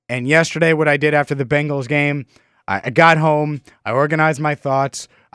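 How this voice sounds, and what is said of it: Slightly sick-sounding voice. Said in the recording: “I'm battling what I think is a cold, and you could probably hear it in my voice a little bit”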